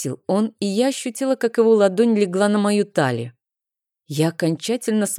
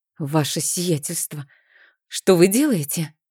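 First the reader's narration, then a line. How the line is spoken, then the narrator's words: Nervous breathy exhale. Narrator (Russian): выдохнула я нервно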